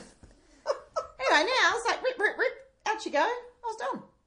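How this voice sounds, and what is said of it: Speaking in a high-pitched voice. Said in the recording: “Why are we speaking in a high voice?”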